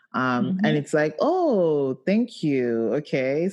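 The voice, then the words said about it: Sarcastic thank you. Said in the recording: “I'm being sarcastic. ... I'm being sarcastic.”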